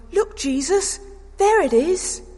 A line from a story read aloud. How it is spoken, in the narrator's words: I cried out excitedly